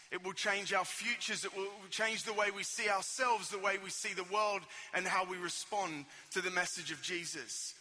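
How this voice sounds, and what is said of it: Australian accent. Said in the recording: “I've got slightly different accent to you guys. I am from Australia, from sunny Sydney.”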